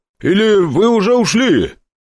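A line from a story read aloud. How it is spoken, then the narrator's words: Barely audible grumble. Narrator (Russian): проворчал себе под нос уже на грани слышимости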